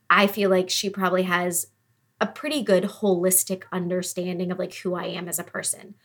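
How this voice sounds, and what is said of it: Teary, emotional voice. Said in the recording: “getting teary.”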